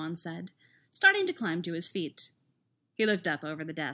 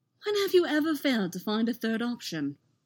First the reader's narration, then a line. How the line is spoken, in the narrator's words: Anakin laughed, which triggered another fit of coughing